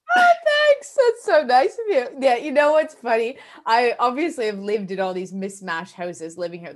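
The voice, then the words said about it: Canadian accent. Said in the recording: “I'm glad you still also think mine's Canadian... Yeah, you do sound... you're absolutely Canadian. You really are.”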